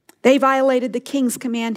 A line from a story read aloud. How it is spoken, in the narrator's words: he said